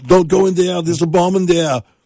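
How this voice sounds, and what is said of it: Accented voice like Arnold. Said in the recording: “I have an accent. ... That sounds pretty good. Maybe you should just do Arnold's voice.”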